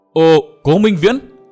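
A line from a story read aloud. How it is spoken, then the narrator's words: Startled exclamation. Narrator (Vietnamese): sừng sốt kêu lên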